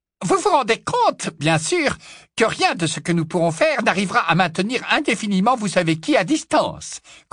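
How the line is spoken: Squeaky voice. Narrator (French): couina le professeur Flitwick

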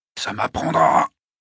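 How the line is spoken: Grumbling. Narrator (French): grogna Mike

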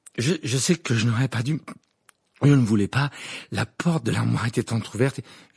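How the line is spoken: Breathless voice. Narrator (French): dit Harry d'une voix haletante

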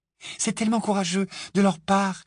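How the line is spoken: Admiring sigh. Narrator (French): soupira Hermione avec admiration

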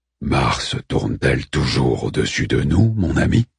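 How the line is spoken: Growled. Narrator (French): gronda Orphu

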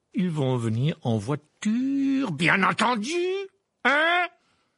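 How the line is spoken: Barked. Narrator (French): aboya l'oncle Vernon

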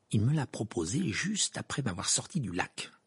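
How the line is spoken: Muttered. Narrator (French): marmonna Hermione

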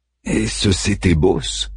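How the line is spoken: Breathy whisper. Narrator (French): souffla Daiman

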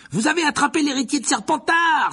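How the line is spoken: Exclaiming schoolgirl. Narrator (French): s'écria une élève de Serdaigle

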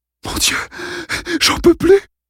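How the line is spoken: Panting. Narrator (French): haleta Dale

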